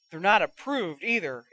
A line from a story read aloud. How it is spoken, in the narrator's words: exclaimed Moody